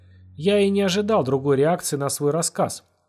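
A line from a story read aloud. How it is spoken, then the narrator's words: Calm, after a pause. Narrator (Russian): после паузы спокойно произнес водопроводчик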